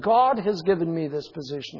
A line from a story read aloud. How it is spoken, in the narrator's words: he says